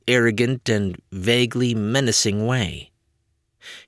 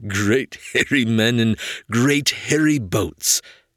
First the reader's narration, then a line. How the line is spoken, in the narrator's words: Hans giggled to himself